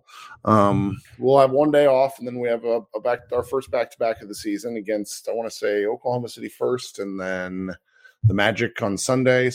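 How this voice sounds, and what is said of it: Rough, unwell-sounding voice. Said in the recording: “my voice is garbo again ... I once again don't feel the best because I am somehow mildly allergic to Texas”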